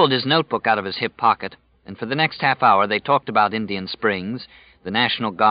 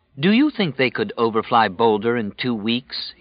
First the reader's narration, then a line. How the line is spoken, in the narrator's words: he asked